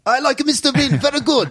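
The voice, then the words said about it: Generic put-on foreign accent. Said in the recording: “was that your Japanese impression? ... No, that wasn't a Japanese impression. ... That was just a generic. ... I don't know what accent that is.”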